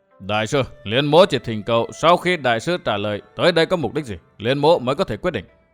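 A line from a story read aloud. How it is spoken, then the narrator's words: Low nasal voice. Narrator (Vietnamese): Mặc Nho hạ giọng mũi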